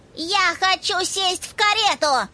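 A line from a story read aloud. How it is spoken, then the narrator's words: Shouting little girl. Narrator (Russian): закричала маленькая разбойница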